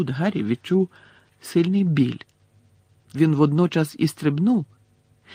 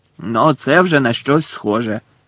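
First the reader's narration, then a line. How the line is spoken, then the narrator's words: Growling voice. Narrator (Ukrainian): прогарчав голос Муді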